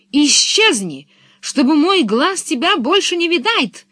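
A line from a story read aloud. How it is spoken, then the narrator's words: Shouting. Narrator (Russian): закричал он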